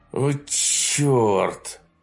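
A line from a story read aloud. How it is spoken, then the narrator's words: Groaning. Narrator (Russian): простонал изворян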